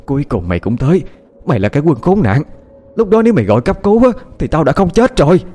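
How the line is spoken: Frantic screaming woman. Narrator (Vietnamese): người phụ nữ như không thể chờ đợi thêm được nữa, cô ta lao ra gào thét

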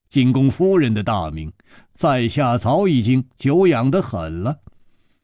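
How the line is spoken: Smiling. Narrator (Chinese): 楚留香笑了笑

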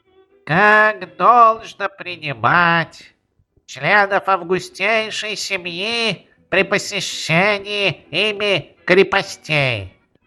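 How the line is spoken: Nasal rote recitation. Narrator (Russian): Какой-то добросовестный, вольно определяющийся, оставшийся дома из-за насморка, это чувствовалось по его голосу, гнусавя, зубрил

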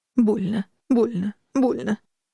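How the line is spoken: Broken sobbing. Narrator (Russian): рыдал он отрывисто

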